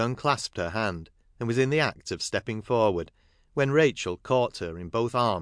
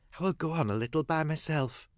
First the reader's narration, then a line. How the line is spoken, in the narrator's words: Sissy whispered